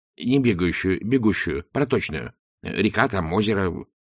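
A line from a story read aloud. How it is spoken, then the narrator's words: Quick explanation. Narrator (Russian): быстро объяснил профессор современного руносложения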